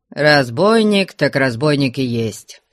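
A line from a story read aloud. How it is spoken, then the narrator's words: Dry. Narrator (Russian): сухо промолвил Потап Максимыч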